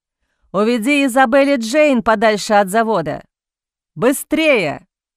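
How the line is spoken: Shouted. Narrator (Russian): Закричал он

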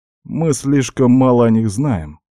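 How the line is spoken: Plain. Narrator (Russian): ответил я

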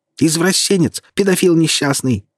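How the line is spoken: Squealing. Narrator (Russian): повизгивали ее жирненькие губы

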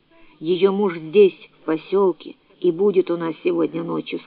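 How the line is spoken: Plain. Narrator (Russian): сказал Симеон

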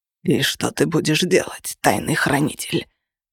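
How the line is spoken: Hoarse rasp. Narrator (Russian): прохрипел он

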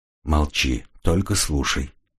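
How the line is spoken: Quiet. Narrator (Russian): тихо сказал

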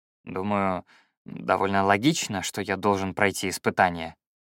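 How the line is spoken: Enchanted mutter. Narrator (Russian): зачарованно пробормотал я

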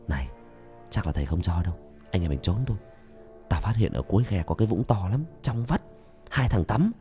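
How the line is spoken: Whisper. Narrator (Vietnamese): thì thầm

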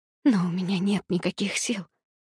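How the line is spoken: Whisper. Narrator (Russian): прошептала я

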